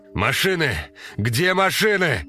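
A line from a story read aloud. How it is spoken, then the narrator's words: Shouting into emptiness. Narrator (Russian): кричал он в пустоту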